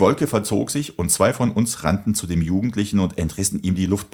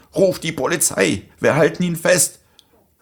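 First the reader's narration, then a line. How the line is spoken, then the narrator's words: Determined call. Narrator (German): rief mir einer meiner Freunde entschlossen zu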